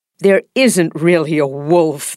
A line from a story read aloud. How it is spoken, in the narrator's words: they said, laughing